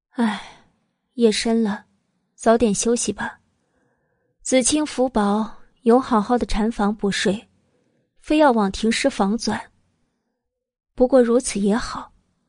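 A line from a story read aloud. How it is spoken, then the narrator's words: Soft sighing, soothing. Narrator (Chinese): 慕容九九淡声叹了口气，安抚道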